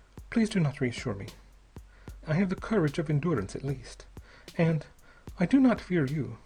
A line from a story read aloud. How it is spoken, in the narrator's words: she said with the faintest of quavering smiles